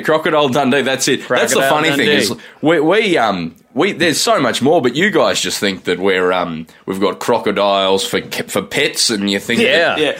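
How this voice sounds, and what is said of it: Australian accent. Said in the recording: “this accent ... we're from Australia”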